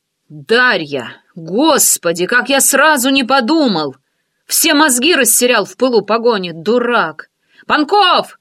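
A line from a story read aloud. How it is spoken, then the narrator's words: Calling out. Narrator (Russian): окрикнул Валера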